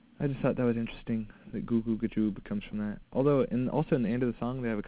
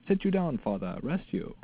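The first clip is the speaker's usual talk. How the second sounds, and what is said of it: Put-on theatrical accent. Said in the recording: “Nice accent.”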